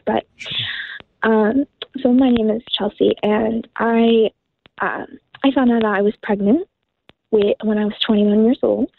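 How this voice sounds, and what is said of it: Emotional, shaky voice. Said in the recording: “it's still a little bit emotional for me”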